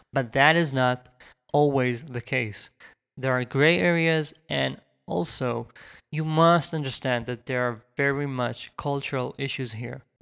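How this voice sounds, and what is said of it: Israeli accent. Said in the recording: “You can hear that I have my Israeli accent”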